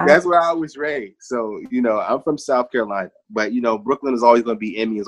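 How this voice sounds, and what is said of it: East Coast American accent. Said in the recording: “you don't have a Southern accent. You sound like you're from the East.”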